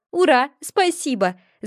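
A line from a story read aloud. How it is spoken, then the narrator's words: Yelling. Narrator (Russian): завопила я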